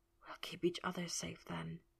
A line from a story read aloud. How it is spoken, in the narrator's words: he whispered